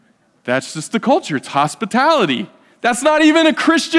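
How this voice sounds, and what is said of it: Usual voice. Nothing is said of it.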